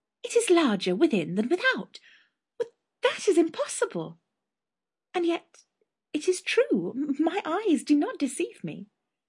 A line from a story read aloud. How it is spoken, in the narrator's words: she exclaimed